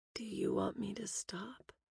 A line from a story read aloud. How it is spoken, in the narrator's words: purred